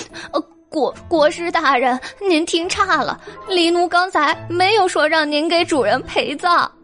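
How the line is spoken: Hurried, tearful explanation. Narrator (Chinese): 黎奴急忙 哭着解释

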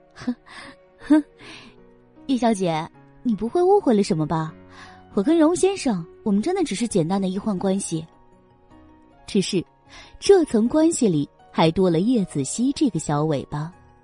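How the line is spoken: Exaggerated laugh. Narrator (Chinese): 叶朵朵便有些夸张的笑了两声，说道

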